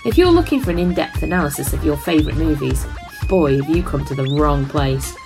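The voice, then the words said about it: Fancy British accent. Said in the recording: “My fancy British accent”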